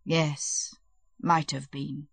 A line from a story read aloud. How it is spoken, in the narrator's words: he said mournfully